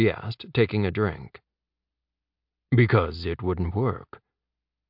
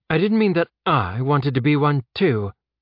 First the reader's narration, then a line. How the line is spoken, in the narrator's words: Nevers said, her tone sharp